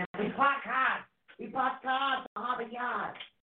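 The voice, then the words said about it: Exaggerated Massachusetts accent. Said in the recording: “we're from Massachusetts ... we have the accent.”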